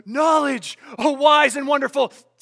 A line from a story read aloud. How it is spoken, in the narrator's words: Between heavy, heaving breaths, the fellow wheezed